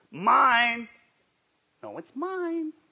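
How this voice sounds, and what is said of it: Imitates another person's voice. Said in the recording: “That's my best impression of Cindy.”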